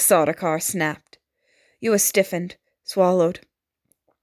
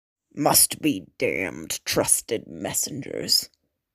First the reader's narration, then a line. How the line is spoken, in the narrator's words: the Sardaukar muttered